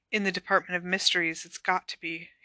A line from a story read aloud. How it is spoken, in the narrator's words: Harry whispered